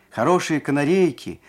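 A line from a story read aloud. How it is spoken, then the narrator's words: Peasant man shouting outside. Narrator (Russian): так кричал мужик под Машиным окошком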